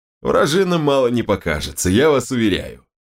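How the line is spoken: Pleased chuckle. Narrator (Russian): довольно хмыкнул он

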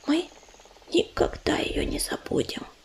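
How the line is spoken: Whisper. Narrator (Russian): прошептала она

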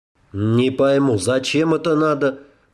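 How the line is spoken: Grumbled. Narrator (Russian): проворчал Рэм

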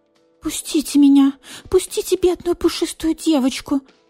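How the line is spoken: Pleading. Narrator (Russian): Взмолилась

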